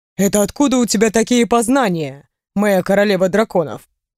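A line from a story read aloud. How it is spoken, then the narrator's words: Amused snort. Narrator (Russian): Хмыкнул Рэй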